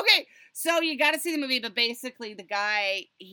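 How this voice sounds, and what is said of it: Usual voice. Nothing is said of it.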